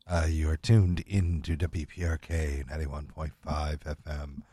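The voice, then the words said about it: Late-night radio DJ voice. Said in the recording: “my late night radio DJ voice. This is my actual late night DJ radio voice.”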